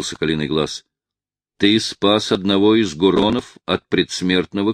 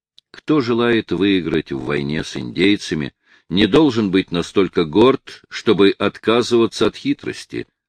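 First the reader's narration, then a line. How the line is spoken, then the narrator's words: Plain. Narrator (Russian): ответил разведчик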